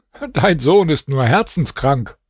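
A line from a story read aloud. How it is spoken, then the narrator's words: Laughing. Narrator (German): lachte und sagte zu seinem Vater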